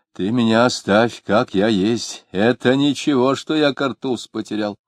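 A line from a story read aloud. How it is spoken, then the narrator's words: Loud elderly man. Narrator (Russian): пожилой человек в пиджаке без рукава и громко говорил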